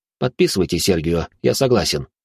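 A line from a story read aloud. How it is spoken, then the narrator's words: Plain. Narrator (Russian): ответил я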